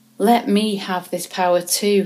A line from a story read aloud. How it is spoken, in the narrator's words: he exclaimed